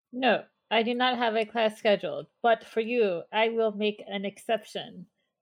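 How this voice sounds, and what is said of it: Put-on French accent. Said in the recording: “the French accent”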